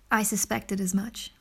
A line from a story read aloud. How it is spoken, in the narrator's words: replied Elizabeth